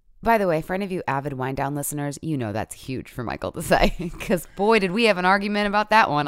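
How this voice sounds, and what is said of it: Deep, sick-sounding hoarse voice. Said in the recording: “if I sound like a man. ... My kid coughed in my face and he gave me whatever he had.”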